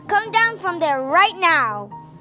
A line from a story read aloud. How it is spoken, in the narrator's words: he hollered at George